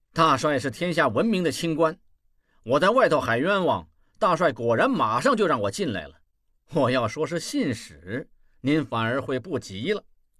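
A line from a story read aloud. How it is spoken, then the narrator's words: Sneering. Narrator (Chinese): 望柏冷笑道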